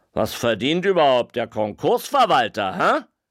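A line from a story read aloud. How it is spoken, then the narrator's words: Fat man calling. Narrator (German): Ein Dicker rief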